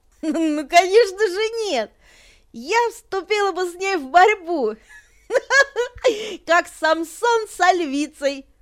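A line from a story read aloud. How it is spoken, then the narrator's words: Laughing. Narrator (Russian): Продолжала смеяться Анибал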